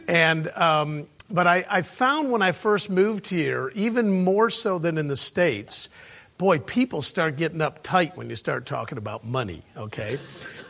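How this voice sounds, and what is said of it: Speaker's own non-British accent. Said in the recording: “I have lived here now in the UK for 15 years, so I haven't lost my accent”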